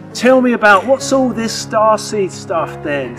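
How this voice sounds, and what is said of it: Imitated Stoke accent, not very good. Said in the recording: “he's got a very kind of a Stokey accent ... I'm not doing that Stokey accent very well”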